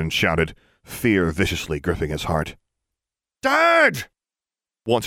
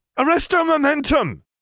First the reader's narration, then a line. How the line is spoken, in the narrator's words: Hermione called out